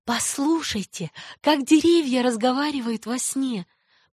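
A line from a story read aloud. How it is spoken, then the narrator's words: Girl's whisper. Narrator (Russian): прошептала девочка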